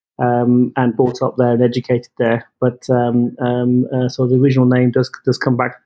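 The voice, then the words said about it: British English accent. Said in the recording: “as you can tell from my from my accent, I'm I'm from the UK”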